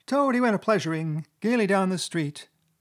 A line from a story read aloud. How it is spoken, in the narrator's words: the chief weasel began in a high, squeaky voice